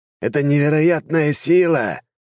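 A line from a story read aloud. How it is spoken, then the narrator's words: Strained exclamation. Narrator (Russian): воскликнул некромант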